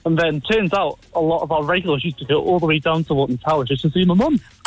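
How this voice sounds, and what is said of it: A lovely regional accent. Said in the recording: “You have a gorgeous accent.”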